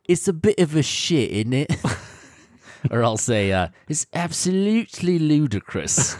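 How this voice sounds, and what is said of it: Put-on British accent. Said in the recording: “certain British words that I love using ... stuff that sounds really fun in a British accent”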